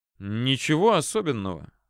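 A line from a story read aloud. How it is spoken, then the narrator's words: Surprisingly calm. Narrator (Russian): на удивление спокойно отвечал ему прапорщик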